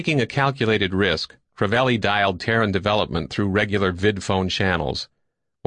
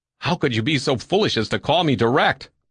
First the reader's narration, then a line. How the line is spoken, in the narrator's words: Bohegian asked nervously